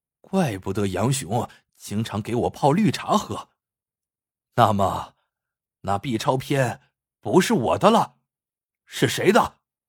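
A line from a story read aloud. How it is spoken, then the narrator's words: Low voice. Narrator (Chinese): 王大夫低声说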